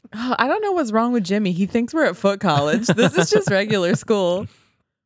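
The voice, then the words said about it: Cartoonish put-on Southern accent. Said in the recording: “It's not really Southern. It's like Muppet Southern.”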